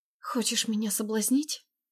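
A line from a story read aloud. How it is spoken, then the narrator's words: Defiant whisper. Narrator (Russian): С вызовом шепнула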